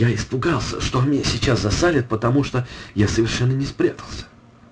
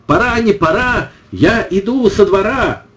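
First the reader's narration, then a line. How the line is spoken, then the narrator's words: Shouted warning. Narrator (Russian): Костик крикнул третье предупреждение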